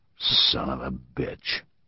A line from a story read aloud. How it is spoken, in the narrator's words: Truslow growled, but with affection